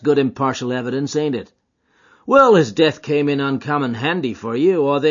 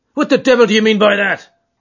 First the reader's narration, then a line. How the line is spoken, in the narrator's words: roared